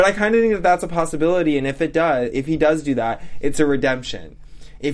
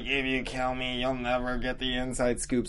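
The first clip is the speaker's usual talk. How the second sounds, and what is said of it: Strained, choked-sounding character voice. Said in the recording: “I'm trying to do that voice like he's getting choked ... Like I imagine he's getting choked”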